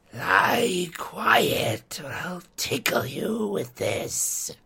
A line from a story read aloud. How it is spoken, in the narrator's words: he hissed